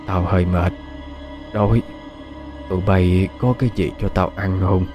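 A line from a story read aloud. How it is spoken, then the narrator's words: Weak voice. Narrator (Vietnamese): Bà chính nói với giọng yếu ớt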